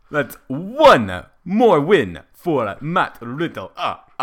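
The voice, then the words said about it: Count from Sesame Street impression. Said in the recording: “an impression that I'm good at ... The count from Sesame Street ... it has to be as the count ... That's the one he said he's good at.”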